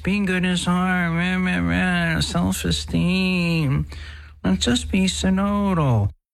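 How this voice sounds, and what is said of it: Whiny mocking voice. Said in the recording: “whiny voice... That whiny voice”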